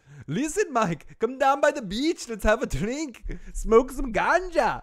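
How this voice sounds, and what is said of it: Deliberately bad put-on Jamaican accent. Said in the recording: “I am gonna make Varner Jamaican here ... I'd do a horrible Jamaican one instead”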